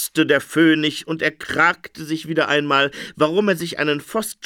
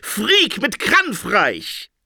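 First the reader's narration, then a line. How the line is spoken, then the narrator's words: Shouting dream interpreter. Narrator (German): schrie der Traumdeuter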